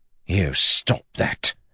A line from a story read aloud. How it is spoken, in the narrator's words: he hissed at them